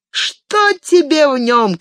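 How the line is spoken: Shouting from below. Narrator (Russian): кричали снизу

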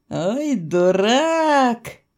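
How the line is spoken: Drawling. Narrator (Russian): протянула я

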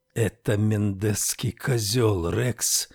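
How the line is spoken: Furious whisper. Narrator (Russian): яростно прошептал

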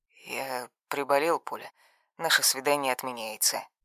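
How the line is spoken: Hoarse voice. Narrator (Russian): хриплое

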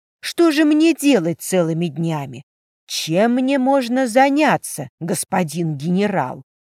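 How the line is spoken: Angry exclamation. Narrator (Russian): Сердито топнув ногой, Диана воскликнула

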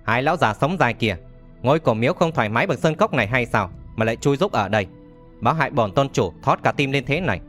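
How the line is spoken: Laughing loudly. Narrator (Vietnamese): Lộc Vọng Phác cười to nói

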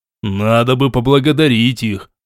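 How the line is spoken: Mumbled under breath. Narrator (Russian): пробурчал под нос Ренуальд

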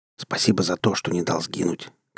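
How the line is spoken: Whisper. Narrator (Russian): шепнул Нагава

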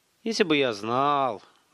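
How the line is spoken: Sighing. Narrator (Russian): вздохнул Столяров

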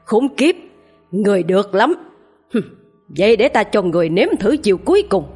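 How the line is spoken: Angry roar. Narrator (Vietnamese): Lão thầy Tàu gầm lên giận dữ

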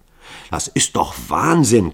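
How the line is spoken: Panting, strained. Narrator (German): keuchte Hall und der Schweiß floss ihm über das Gesicht

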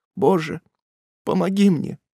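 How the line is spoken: Weak whisper. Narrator (Russian): Слабым голосом она могла только прошептать

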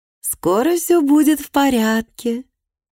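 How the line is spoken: Sugary tone. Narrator (Russian): сказала Бергитти слащавым тоном

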